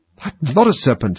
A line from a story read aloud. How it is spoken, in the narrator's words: said Alice indignantly